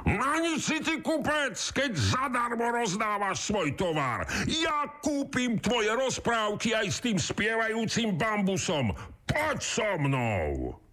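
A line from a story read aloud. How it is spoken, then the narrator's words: Shouting. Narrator (Slovak): kričí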